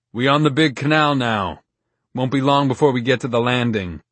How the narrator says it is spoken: the man above, as though speaking to the woman, announced loudly

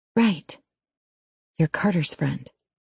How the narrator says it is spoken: I finally say, my voice faint

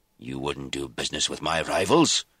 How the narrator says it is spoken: Sir George exclaimed

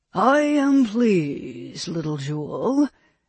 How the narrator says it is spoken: he purred at her

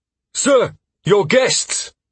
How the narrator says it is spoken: Lauren exclaimed

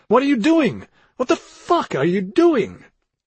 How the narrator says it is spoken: Daniel bawled

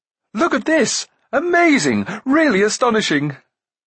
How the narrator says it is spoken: the prince called out

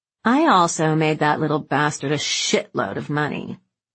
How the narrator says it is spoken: Slim slurred

